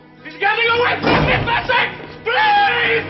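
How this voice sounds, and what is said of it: Panicked screaming. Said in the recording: “the panic in ... voice ... he is screaming, panicked that he can't get this door ... He's screaming”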